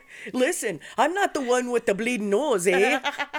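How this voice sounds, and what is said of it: Put-on Canadian accent. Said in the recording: “Canadian accent ... our Canadian inspiration”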